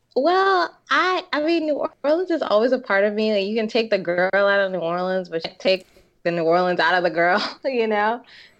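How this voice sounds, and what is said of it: Southern New Orleans accent. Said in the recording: “I'm just like really very Southern, and I can't escape that ... people are like, oh, your accent.”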